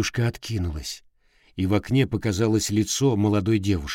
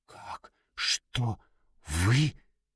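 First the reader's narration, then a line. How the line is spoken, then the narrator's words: Frightened whisper. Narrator (Russian): Испуганным шепотом спросила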